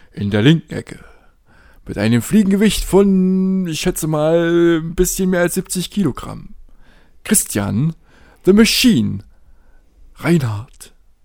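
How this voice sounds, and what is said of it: Deep announcer-style voice. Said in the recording (German): “mit der tiefen Stimme”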